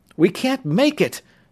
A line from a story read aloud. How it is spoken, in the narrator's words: Tom gasped